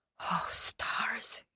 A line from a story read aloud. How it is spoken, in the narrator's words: muttered